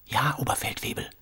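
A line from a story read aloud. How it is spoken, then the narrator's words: Whispering. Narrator (German): flüsterte Sam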